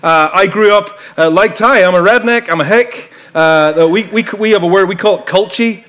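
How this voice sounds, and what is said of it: Irish accent. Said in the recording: “I grew up in Ireland, as you probably know, and you can maybe tell from my accent.”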